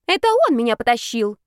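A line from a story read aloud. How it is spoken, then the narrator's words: Sudden thin squeak. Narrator (Russian): вякнул Зарецкий вдруг тонким голоском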